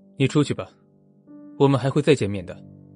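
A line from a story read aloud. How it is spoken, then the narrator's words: Cold dismissal. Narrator (Chinese): 小静开启了一副冷冷模样的送客模式，说道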